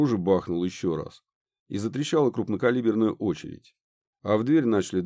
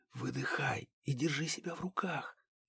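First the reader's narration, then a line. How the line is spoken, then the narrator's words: Quiet whisper near ear. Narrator (Russian): раздался тихий шепот банши над ухом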